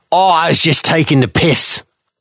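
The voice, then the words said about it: Put-on Cockney accent. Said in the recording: “Is that what Orwell's accent was like in your head ... I didn't realize he was Cockney.”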